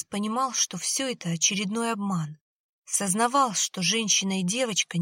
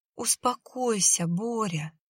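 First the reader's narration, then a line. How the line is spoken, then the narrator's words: Gentle. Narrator (Russian): ласково сказала Марина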